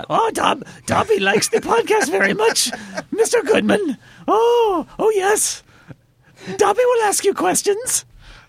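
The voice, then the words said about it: Dobby the house-elf character voice. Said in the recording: “Wow, that's really good... you nailed it... I do a Dobby voice.”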